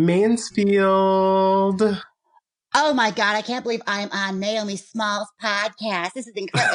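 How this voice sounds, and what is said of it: Usual voice. Nothing is said of it.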